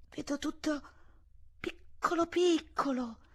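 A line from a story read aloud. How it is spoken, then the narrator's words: Strange muffled voice. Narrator (Italian): disse con una voce strana, come se venisse di sotto una sedia Eugenia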